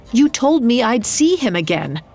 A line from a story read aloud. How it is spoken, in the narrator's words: Marquez cried